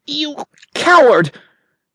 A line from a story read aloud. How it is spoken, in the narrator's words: came instantly her choking defiance